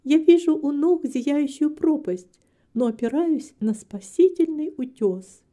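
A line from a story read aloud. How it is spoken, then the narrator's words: Soft gentle voice. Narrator (Russian): мягко сказала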